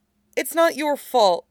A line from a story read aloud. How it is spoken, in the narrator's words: he tells Suezhou urgently